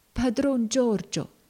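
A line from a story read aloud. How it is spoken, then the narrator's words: Faint weak voice. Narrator (Italian): disse Tom parlando con voce fievole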